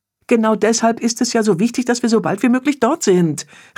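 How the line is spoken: Called out. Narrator (German): rief Bea

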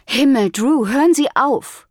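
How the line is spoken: Groaning. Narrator (German): stöhnte Brooke

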